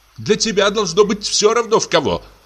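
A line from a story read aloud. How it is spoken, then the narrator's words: Shouted. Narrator (Russian): крикнула Софья Петровна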